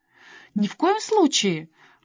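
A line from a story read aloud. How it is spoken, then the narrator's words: Protesting exclamation. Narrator (Russian): протестующим тоном воскликнула она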